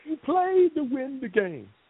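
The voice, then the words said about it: Herm Edwards impression. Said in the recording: “Herm Edwards ... That's a pretty good impression. ... that was pretty good ... Nah, that was him.”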